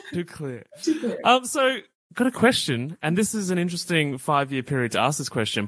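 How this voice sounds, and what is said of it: Clear Australian accent. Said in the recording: “here in Australia, my accent is clear enough that I'm sometimes mistaken for British ... You're enunciating way too well”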